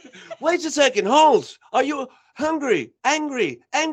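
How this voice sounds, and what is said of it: Usual voice. Nothing is said of it.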